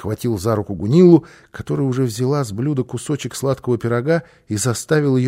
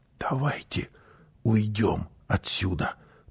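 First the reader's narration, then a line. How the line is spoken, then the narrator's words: Whispering mother. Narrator (Russian): прошептала мама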